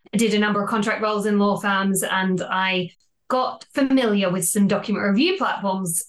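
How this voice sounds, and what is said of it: Australian accent. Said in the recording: “I don't know if you can tell from the accent, but I'm originally from Australia”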